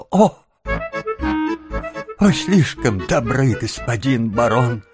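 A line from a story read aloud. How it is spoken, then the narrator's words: Sobbing stepmother. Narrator (Russian): Мачеха, снова всхлипнув, или вернее продолжая всхлипывать, сказала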